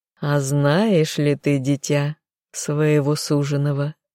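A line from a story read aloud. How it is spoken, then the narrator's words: Purring. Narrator (Russian): мурлыкнула незнакомка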